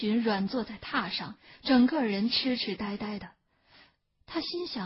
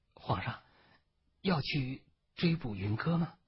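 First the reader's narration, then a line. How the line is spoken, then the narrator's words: Quiet question. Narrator (Chinese): 七喜 他小声地问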